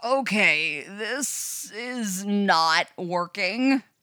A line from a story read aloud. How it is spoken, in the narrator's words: Robin groans